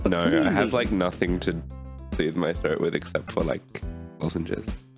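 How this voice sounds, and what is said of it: Hoarse, strained sore-throat voice. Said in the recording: “my voice is like absolutely like dead. I've got a sore throat”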